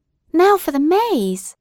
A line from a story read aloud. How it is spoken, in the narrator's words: cried the young people